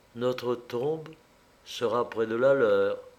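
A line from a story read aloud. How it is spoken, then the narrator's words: Murmured. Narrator (French): elle murmura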